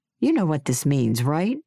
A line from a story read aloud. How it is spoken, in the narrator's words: he asked